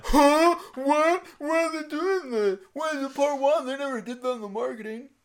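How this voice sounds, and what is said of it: Imitates another person's voice. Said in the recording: “That was my impersonation.”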